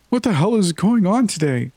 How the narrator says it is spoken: I sobbed

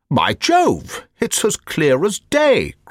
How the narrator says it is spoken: cried the Colonel

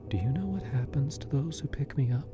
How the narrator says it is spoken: she whispered, her voice barely audible over the roaring in my ears

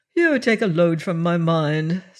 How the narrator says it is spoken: said Captain Blood

